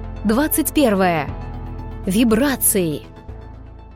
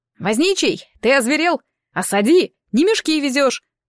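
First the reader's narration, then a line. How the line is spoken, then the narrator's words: Shouted outward. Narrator (Russian): крикнул Сокур наружу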